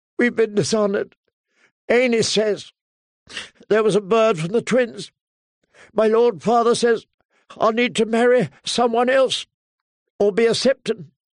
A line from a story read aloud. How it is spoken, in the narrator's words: sobbed